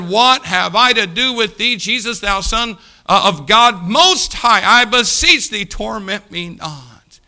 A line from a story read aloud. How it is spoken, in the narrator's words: he cried out and fell down before him with a loud voice, said